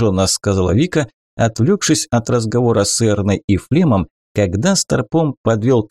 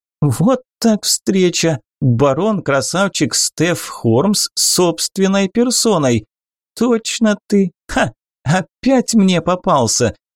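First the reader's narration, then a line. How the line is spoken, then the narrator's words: Laughing. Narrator (Russian): засмеялась она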